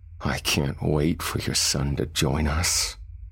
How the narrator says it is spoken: Lucifer said, chuckling

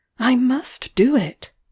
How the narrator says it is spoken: I cried

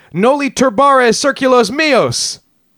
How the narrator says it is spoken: He supposedly cried

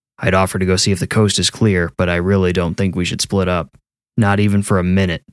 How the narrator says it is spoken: Jim said

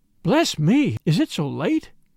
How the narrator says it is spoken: she cried

